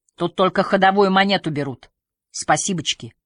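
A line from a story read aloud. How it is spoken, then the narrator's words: Angry huffing ringing shout. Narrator (Russian): Попрошайка сердито запыхтел в усы и звонко крикнул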